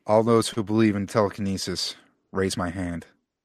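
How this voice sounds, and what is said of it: Dry Stephen Wright impression. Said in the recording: “my Stephen Wright voice ... he's got a dry sense of humor”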